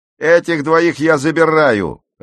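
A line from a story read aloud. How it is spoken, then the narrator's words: Bark. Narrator (Russian): рявкнул он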